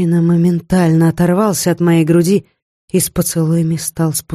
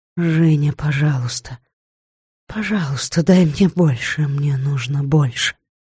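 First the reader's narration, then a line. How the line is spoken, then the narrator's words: Mumbled through moans. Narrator (Russian): не могла больше терпеть, то пробормотала сквозь стоны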